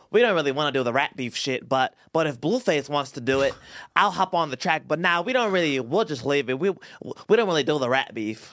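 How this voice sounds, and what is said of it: Imitates another person's voice. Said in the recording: “That was a pretty good impersonation... I'm hella good at impersonations.”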